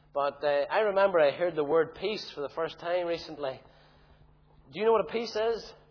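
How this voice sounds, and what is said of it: Tandragee Northern Irish accent. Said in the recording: “the Ballymoney folk have tarnished my accent. And that's terrible, because I like to keep my Tandragee accent.”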